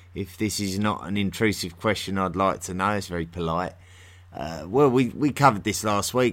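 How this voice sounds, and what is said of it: English accent from near London. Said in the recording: “I'm from near London in England. And that's my accent is typical of that area ... not really the natural accent of London. The natural accent of London is much more like mine.”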